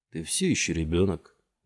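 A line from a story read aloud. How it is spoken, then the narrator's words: Displeased mutter. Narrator (Russian): недовольно пробормотал Фишборн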